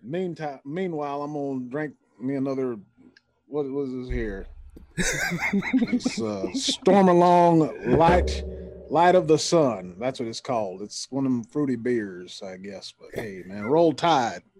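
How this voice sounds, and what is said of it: Put-on country accent. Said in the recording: “What is this country accent now?”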